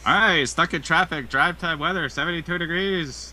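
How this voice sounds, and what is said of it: Radio DJ voice. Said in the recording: “do a radio DJ voice”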